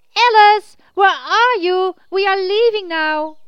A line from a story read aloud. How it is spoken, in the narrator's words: Brave Hunter cupped his hands around his mouth and shouted out loud